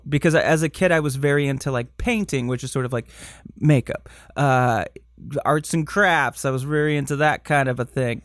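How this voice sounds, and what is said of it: Michigan accent. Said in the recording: “My Michigan accent is like ... it's coming out today.”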